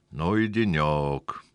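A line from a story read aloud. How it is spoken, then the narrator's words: Weary sigh. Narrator (Russian): вздохнул президент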